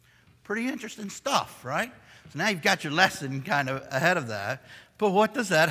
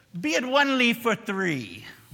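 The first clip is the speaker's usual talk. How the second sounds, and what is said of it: Attempted Irish accent. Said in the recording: “I'll try my best Irish accent here”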